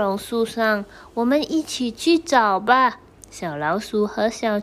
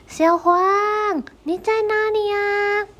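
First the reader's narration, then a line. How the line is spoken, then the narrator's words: Small frog shouting. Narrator (Chinese): 小青蛙跟着大喊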